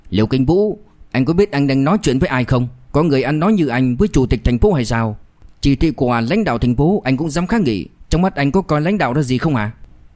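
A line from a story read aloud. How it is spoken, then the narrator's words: Angry. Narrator (Vietnamese): Lục Chân Phong giận dữ nói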